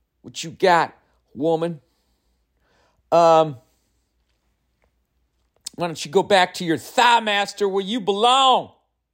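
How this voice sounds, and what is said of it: Put-on Southern accent. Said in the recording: “I don't know why I've adopted this southern accent, but it's fucking fun. ... It's just fun to act like that in that accent.”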